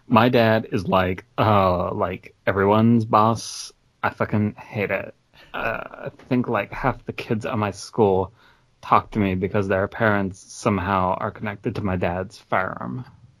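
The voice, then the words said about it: Lumpy Space Princess character voice. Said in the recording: “just did a third voice ... Lumpy Space Princess”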